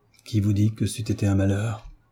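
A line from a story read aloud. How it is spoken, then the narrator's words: Muffled adolescent voice. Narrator (French): répondit l'adolescent d'une voix sourde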